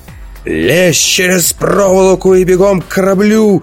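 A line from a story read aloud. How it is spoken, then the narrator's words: Yelling. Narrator (Russian): заорал он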